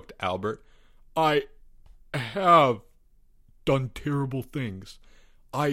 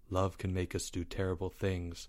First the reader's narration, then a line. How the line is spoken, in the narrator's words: said Leo in a low voice